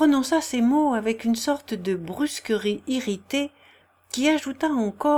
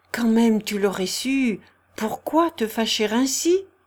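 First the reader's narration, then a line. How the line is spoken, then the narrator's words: Gentle. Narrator (French): reprit doucement le prince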